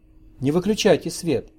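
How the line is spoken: Clear and cheerful. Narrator (Russian): произнесла отчетливо и бодро

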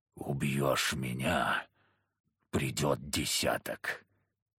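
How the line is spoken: Hoarse rasp. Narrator (Russian): он прохрипел

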